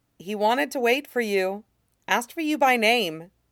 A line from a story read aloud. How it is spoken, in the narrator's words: She says, calmly